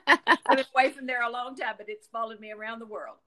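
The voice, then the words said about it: Southern American accent. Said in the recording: “this Southern accent ... You still got it. ... It stuck.”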